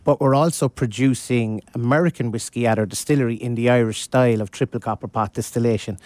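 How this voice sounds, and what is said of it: Slight accent. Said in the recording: “has a little bit of an accent”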